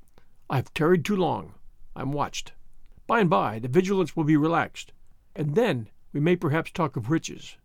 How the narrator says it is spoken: he said, in a frightened whisper

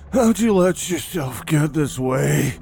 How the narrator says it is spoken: He breathed hard, feeling an uncomfortable burn in his lungs

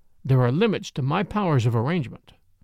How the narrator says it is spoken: I said dryly

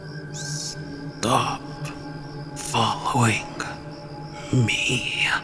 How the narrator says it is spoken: the woman say in a raspy voice

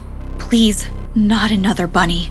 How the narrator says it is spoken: gasped

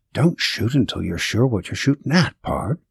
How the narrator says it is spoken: he whispered in my ear

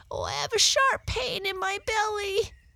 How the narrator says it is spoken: he sobbed

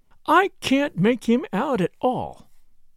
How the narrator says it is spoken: she said in an aggrieved voice

